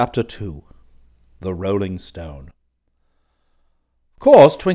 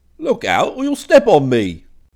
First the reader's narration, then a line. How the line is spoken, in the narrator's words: cried the voice a second time